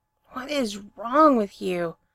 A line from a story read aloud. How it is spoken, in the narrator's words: He hisses